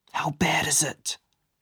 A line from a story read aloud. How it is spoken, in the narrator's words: he whispered